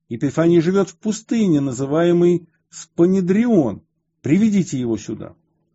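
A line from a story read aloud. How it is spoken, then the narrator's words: Loud demonic shouting. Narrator (Russian): дьявол, бывший в отроковице, продолжал громко кричать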